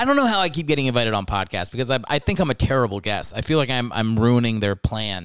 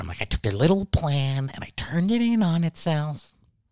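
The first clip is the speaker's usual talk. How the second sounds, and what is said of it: Joker character voice impression. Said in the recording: “my Joker impression, which I think is not that bad. ... I think it's actually a pretty good impression”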